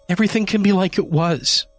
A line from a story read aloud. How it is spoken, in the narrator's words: she pleaded